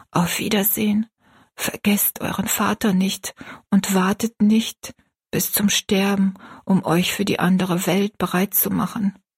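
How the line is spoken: Whisper. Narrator (German): flüsterte er

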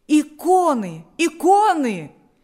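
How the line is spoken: Several voices shouting. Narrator (Russian): кричали несколько голосов

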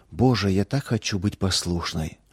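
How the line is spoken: Whispered. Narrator (Russian): шептала она

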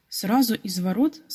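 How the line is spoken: Plain. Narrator (Russian): сказал Петя

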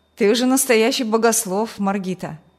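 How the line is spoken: Mocking. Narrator (Russian): Насмешливо молодой ученый

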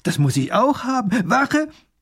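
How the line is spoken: Delighted little nobleman calling. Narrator (German): ruft der kleine Großherzog erfreut

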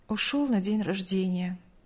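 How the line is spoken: Curt, with a sigh. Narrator (Russian): коротко ответила мать, вздохнув

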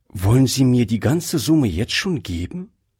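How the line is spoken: Plain. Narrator (German): fragte sie

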